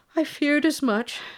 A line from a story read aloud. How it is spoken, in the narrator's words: said the king sadly